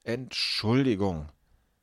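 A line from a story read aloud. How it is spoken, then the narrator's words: Trembling voice. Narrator (German): sagt mit zittriger Stimme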